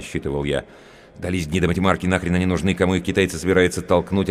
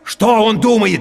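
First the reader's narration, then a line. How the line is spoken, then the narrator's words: Shouting. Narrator (Russian): теперь я тоже кричал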